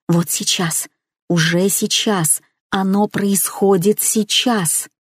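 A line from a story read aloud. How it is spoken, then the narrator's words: Quiet inner whisper. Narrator (Russian): Внутренний голос тихо нашептывал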